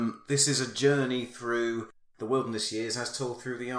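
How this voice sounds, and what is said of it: Usual voice. Nothing is said of it.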